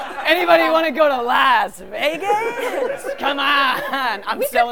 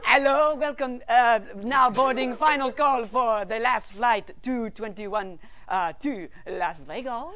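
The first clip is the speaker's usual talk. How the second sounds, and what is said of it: Put-on accent. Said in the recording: “I like his accent better.”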